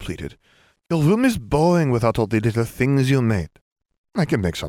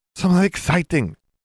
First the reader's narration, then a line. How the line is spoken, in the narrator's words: Gabby cried